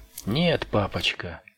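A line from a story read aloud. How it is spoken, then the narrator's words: Dry. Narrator (Russian): сухо проговорил Перри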